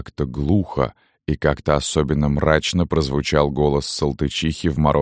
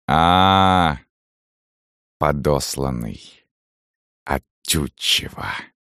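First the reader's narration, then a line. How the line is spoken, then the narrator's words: Hissing. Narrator (Russian): Зашипела уже Салтычиха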